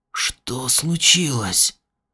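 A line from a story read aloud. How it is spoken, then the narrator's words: Hoarse question. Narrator (Russian): Он хрипло спросил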